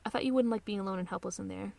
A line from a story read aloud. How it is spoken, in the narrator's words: she says quietly